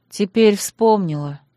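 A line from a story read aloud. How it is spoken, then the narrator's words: Gloomy mutter. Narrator (Russian): мрачно буркнула я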